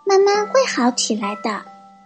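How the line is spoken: Sighing explanation. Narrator (Chinese): 火龙妈妈叹了口气，解释说

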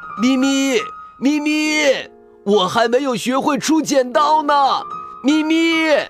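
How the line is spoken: Loud shouting while chasing. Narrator (Chinese): 大猩猩立刻追着车子，也大声的喊

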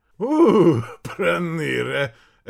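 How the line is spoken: Shaking laughter. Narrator (Russian): рассмеялся Бродников и весь затрясся

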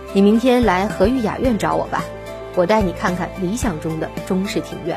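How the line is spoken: Faint smile. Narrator (Chinese): 刘总淡淡笑道

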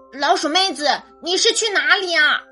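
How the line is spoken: Loud shout. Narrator (Chinese): 乌鸦大声喊着

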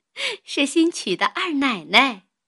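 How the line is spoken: Breathless after laughing. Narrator (Chinese): 袭人笑得说不出话来，歇半日才说道

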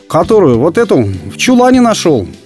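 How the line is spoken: Cheerful. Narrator (Russian): Весело сказал Елдагир

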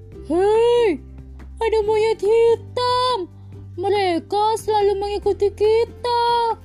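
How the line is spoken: Shouting. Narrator (Indonesian): teriak monyet malam

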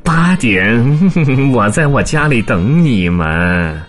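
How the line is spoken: Suppressing laughter. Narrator (Chinese): 猫强忍住笑，憋红了脸说

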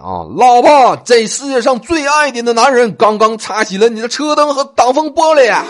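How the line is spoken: Shouting. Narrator (Chinese): 我对着我老婆大喊

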